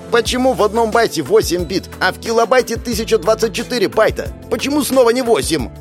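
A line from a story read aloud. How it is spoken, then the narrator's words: Yelling. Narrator (Russian): Орала Света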